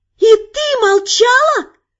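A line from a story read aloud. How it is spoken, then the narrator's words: Shouted, dragon girl. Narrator (Russian): Прокричала внезапно обретшая человеческую плоть дракоша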